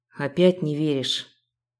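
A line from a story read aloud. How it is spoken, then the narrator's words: Sighing man. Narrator (Russian): вздохнул мужчина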